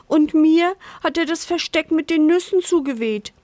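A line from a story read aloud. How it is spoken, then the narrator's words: Whining squirrel. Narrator (German): jammert das Eichhörnchen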